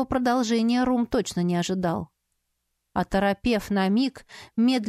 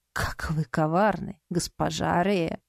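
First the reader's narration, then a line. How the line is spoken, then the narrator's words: Laughing snort. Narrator (Russian): со смехом фыркнул он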